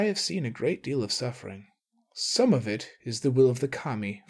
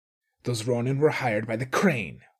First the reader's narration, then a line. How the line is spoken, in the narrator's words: she snapped